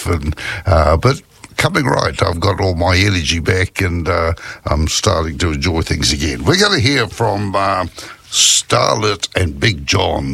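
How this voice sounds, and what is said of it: Scratchy, hoarse voice. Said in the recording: “suffering a little bit with bronchitis or influenza, and my throat is fairly scratchy... I sound a bit different from the way that I usually do”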